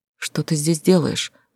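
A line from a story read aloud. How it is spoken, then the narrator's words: Whisper. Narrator (Russian): прошептала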